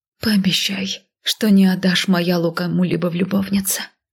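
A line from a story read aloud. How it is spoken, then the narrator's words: Breathed out. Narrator (Russian): выдохнула я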